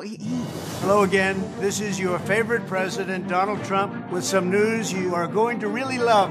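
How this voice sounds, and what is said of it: Donald Trump impression. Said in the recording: “good Trump impersonation”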